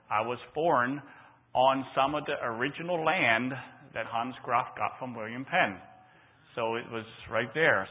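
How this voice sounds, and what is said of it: Speaks with a regional accent. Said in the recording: “So that's why I have that accent”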